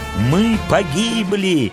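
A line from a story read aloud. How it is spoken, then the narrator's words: Group crying out. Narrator (Russian): закричали изгнанники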